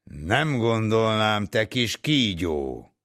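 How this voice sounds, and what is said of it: Booming thunderous voice. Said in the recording (Hungarian): “szólalt meg dörgő hangon”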